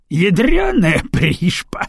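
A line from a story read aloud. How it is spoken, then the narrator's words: Roar. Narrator (Russian): взревел широкоплечий собеседник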